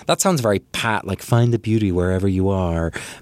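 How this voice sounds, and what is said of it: Put-on American accent. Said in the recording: “that was an American accent ... Let me do my American accent.”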